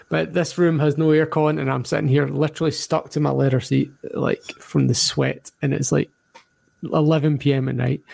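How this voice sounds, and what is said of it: Scottish accent. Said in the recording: “why I didn't have an Australian accent. Scottish born and bred”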